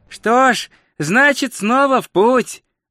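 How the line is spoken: Cheerful. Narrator (Russian): бодро сказал

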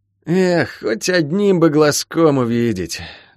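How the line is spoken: Sighing. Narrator (Russian): вздохнул Сэмми

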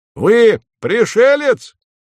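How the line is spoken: Sudden bark. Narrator (Russian): гаркнул он вдруг

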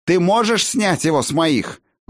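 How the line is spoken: Shouting. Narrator (Russian): выкрикнул Тан

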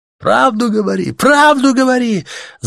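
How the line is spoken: Many voices shouting. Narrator (Russian): закричали в ответ невидимому диктору

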